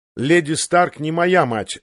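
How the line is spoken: Sharp reminder. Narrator (Russian): резко напомнил ему Джон

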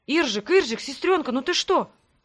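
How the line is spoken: Frightened babbling. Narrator (Russian): испуганно лепетал Грег

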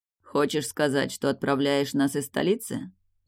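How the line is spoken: Forced casual calm. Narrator (Russian): небрежно уточнил, стараясь, чтобы голос звучал спокойно и дружелюбно

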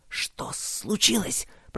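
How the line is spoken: Hiss. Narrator (Russian): прошипел Роберт, скорчившийся рядом с Люком меж остовов деревьев, пока над ними свистели снаряды

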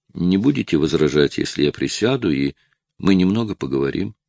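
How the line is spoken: Soft, gentle. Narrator (Russian): Доктор мягко сказал

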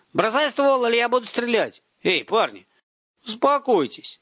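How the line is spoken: Loud yell. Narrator (Russian): Заорал в ответ, чтобы оба хорошо слышали

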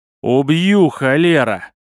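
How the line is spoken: Shout through clenched teeth. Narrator (Russian): Сквозь зубы прокричал мужик

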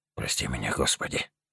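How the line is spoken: Mouthed whisper. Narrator (Russian): прошептал одними губами

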